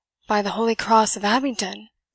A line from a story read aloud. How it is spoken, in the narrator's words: exclaimed Anthony Foster, in his alarm